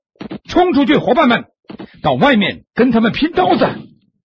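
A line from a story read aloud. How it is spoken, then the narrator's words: Loud shout. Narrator (Chinese): 船长大声喊道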